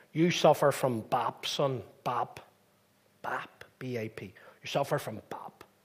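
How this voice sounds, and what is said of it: Broad Belfast accent. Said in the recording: “broad Belfast accent”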